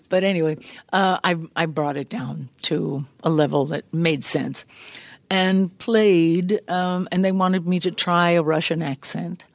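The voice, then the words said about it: Slightly strained, worn voice. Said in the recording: “from being raucous here in this studio, my voice is a little harried”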